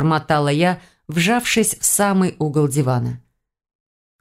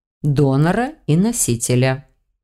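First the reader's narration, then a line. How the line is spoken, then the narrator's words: Calm explanation. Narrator (Russian): спокойно пояснил он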